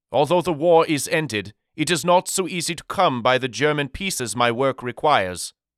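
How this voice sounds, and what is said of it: Thick European accent. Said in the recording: “he inquired with a thick European accent.”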